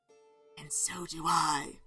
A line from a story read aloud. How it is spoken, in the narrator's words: whispered